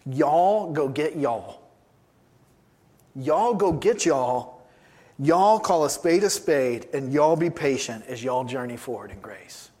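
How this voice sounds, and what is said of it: Put-on Southern accent. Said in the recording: “in his southern Roman accent”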